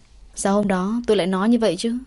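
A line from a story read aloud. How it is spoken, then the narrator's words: Gloomy sighing. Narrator (Vietnamese): Anh buồn bực thở dài một hơi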